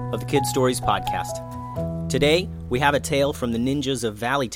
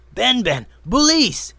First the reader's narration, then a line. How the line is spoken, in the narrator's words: yelled the man